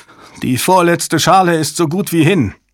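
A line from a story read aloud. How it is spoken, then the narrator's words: Ashen technician calling out. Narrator (German): Ein aschfahler Techniker rief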